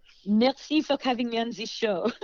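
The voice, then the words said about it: Put-on French accent. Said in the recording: “I really do not have a French accent, but I don't want to blow it. Some people if they think I talk like this.”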